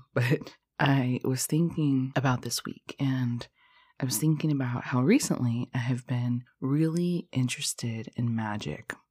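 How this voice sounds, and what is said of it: Sleepy just-woken-up voice. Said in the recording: “you can probably hear in my voice that I just woke up”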